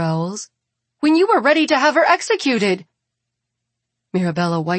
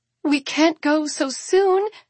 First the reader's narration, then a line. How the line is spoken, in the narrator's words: Elizabeth cries